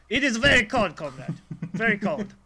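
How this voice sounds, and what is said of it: Mock Russian accent. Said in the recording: “get Alexa the Russian edition”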